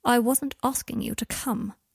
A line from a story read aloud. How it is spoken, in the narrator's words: he said, his voice going sharp and cold